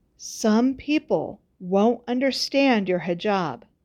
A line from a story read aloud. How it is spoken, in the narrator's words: Mama had said